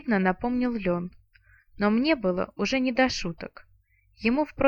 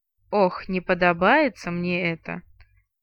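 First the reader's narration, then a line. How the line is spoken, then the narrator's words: Grumbling. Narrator (Russian): проворчала Арсана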